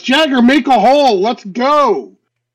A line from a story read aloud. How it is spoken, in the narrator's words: He just shouts